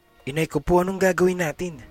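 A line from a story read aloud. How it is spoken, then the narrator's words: Exclaiming. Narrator (Tagalog): Bulalas ni Boging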